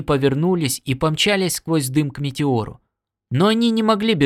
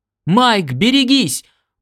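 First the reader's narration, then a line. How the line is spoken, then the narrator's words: Piercing shout. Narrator (Russian): пронзительно крикнул Норт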